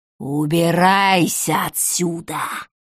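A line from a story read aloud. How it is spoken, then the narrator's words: Old woman rasping. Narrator (Russian): захрипела бабка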